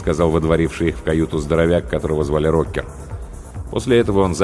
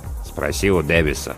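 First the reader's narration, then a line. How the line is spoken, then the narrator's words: Grumbled. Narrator (Russian): буркнул помощник навигатора Сноу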